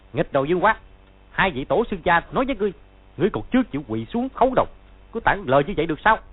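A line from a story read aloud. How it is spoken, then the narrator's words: Loud shout. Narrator (Vietnamese): Hắn quát to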